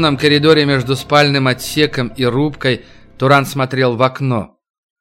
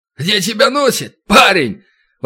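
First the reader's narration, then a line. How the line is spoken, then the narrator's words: Friendly, familiar exclamation. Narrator (Russian): воскликнул он при виде Турана с таким выражением, будто они старые приятели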